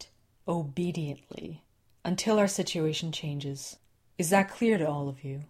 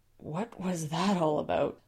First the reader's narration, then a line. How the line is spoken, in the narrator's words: Susan whispered to Les